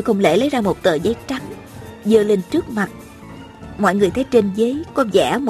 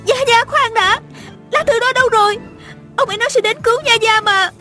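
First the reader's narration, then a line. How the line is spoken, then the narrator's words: Hurried anxious cry. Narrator (Vietnamese): Tiêu Uyển Nhi vội la lên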